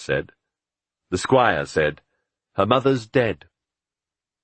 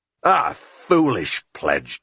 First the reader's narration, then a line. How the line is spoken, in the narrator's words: Tom said angrily